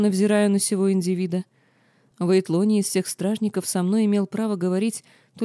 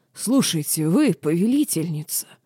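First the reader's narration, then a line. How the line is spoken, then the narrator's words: Hoarse wheeze. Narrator (Russian): стражник прохрипел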